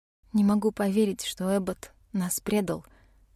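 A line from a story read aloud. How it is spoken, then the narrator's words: Quiet. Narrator (Russian): сказала тихо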